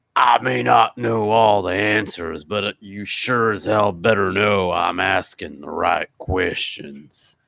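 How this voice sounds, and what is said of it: Impression of The Undertaker. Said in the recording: “your friend The Undertaker likes to say, I'll try to do an impression. I'm not exactly a fucking, you know, I'm not exactly a Dana Carvey.”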